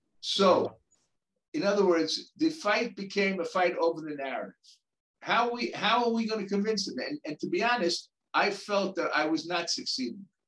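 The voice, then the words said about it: New York accent. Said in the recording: “I'm a Jew originally from Brooklyn, who speaks with a New York accent”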